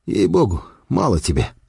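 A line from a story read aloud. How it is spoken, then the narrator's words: Candid mutter. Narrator (Russian): пробормотал я откровенно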